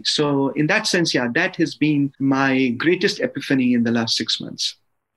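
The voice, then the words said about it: Charming foreign accent. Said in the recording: “your accent is so charming. I love the way that you say epiphany.”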